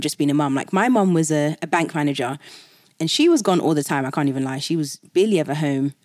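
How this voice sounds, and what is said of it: British accent. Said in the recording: “because I'm British, so it's a different accent”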